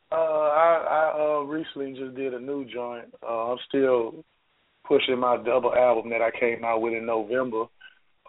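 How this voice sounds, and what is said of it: Hoarse voice, lacking usual depth. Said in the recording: “I'm a little hoarse today ... my voice was gone ... I can't throw the deep voice on the day”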